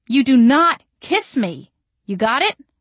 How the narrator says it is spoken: I shouted

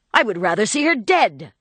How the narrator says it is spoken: cried the young man violently

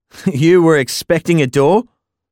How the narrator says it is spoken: I asked, unable to stop the haggard laugh breaking from my throat

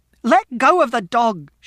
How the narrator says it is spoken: she shouted

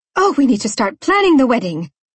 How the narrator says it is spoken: Aunt Maria exclaimed

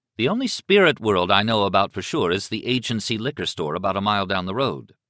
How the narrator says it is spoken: Liz said evenly

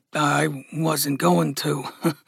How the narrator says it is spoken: Gus muttered

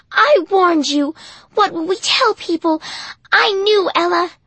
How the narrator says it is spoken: Hattie cried

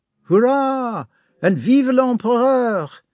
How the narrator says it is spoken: The battalions shouted

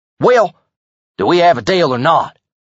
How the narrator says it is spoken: He snapped

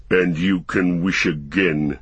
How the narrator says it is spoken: said the growling voice

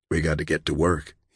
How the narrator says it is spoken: he whispered to her

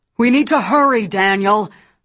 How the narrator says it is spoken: Roland shouted from above

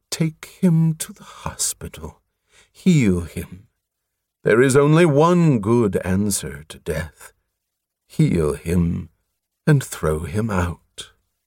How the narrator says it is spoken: With a sigh of satisfaction, the unctuous voice said

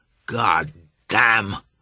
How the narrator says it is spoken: Marsh roared

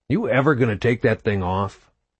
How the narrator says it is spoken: Carlos asked

